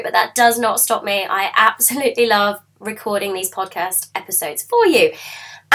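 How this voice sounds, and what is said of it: Hoarse, croaky voice. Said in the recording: “I know I sound a little bit like a frog. ... I've got a bit of a sore throat”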